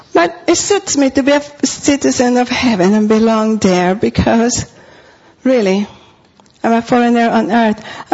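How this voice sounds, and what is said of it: Non-native accent in English. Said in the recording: “all I have to do is say hello, and everybody knows I'm a foreigner. My accent comes out. ... I have an accent in English. I have an accent in Spanish.”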